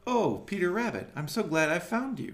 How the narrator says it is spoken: cried

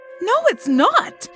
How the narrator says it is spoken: I found myself exclaiming

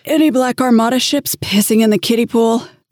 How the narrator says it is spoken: asked through a prolonged yawn

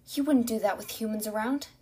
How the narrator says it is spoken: Sophie said, hating her voice for shaking

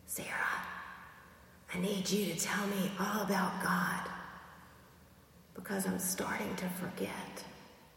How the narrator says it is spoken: whispered

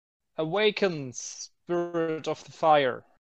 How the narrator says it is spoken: shout

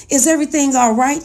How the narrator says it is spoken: he asked

